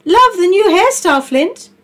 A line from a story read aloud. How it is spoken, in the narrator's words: called out Flo